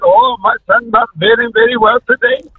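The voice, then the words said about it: Put-on accent imitating another person. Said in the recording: “Not the accent. ... We got an accent”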